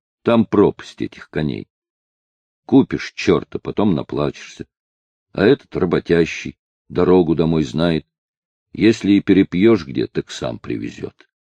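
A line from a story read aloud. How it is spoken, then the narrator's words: Angry explaining father. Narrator (Russian): Отец сердито пояснил матери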